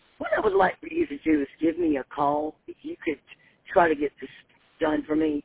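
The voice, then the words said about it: Congested, rough-sounding voice. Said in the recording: “My allergies are terrible. My voice sounds horrible.”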